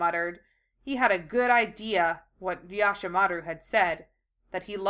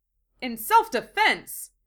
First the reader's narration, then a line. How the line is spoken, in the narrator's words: Lee exclaimed